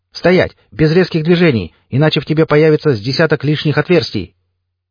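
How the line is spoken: Shouted command. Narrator (Russian): Напарник выкрикнул

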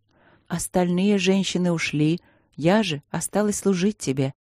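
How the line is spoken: Soft explanation. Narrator (Russian): объяснила она мягко

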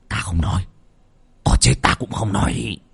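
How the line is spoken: Groaning mumble. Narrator (Vietnamese): Lão mo đang rên hừ hừ, lúng búng trong mồm

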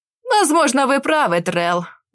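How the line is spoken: Mocking reply. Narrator (Russian): насмешливо отозвался Вистер, хотя в глазах сверкал гнев

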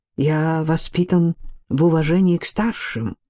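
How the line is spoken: Plain. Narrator (Russian): ответил Ци

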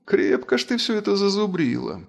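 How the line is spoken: Annoyed sigh. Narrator (Russian): вздохнула повелительница фей, досадливым

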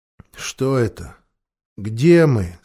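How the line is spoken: Tired dull voice. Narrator (Russian): спросил Питер усталым, тусклым голосом

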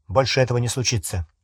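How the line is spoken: Sharp. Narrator (Russian): резко сказал Гарри

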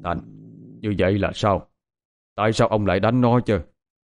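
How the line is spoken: Angry shout. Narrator (Vietnamese): Ông trưởng ra vẻ giận dữ quát lên

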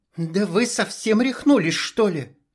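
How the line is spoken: Hiss. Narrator (Russian): зашипела Алина

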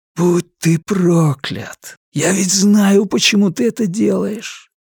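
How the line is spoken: Despairing whisper. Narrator (Russian): Почти сокрушенно прошептал он

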